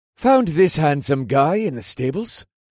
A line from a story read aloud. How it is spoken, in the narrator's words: Riandale said with a chuckle